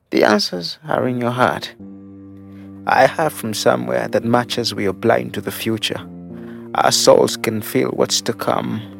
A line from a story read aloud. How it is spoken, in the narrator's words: After a long pause, with an almost silent giggle, breathed Sandy